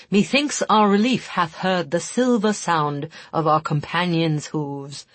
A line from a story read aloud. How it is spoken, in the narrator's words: he intoned melodramatically